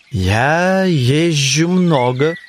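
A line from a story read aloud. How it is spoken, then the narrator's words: Solemn. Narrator (Russian): отвечал рыцарь торжественно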